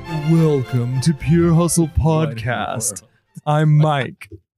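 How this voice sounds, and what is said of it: Mock posh hoity-toity voice. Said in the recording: “I don't have a very good hoity-toity ... voice. That sounded more like we're coming to a Halloween episode ... I should have done like a really cool like British accent ... Was just trying to do like a hoity-toity”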